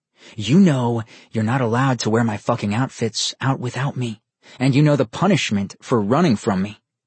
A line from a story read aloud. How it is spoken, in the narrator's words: he growled at her